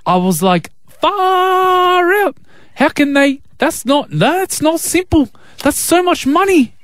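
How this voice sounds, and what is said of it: Put-on New Zealand accent. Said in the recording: “I just want to do a Kiwi accent. ... Just wanted to do my accent this morning. ... I love my Kiwi accent.”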